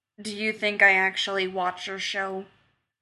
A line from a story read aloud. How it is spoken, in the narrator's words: Batman asked flatly